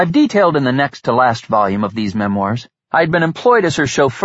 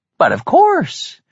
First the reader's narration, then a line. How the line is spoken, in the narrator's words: continued in her lilting voice and cheery manner